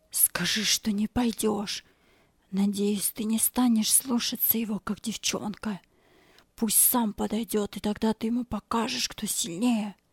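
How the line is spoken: Whispered. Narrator (Russian): Боб шепнул ему

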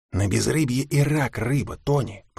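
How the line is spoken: Hissed. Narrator (Russian): прошипел Билл

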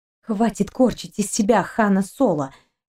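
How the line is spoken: Angry whisper. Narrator (Russian): сердито прошептала Кристина

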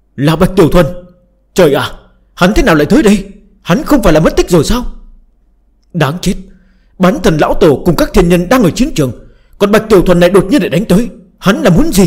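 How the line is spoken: Shocked scream. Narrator (Vietnamese): có người nhận ra Bạch Tiểu Thuần, la lên thất thanh

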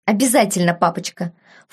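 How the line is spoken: Indignant snort. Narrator (Russian): фыркнул барон, возмущенно

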